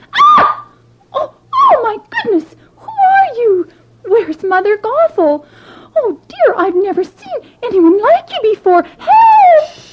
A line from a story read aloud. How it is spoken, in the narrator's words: so shocked to see someone other than Mother Gothel that she screamed